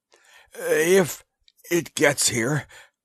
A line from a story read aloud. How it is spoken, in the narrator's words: gasped the Martian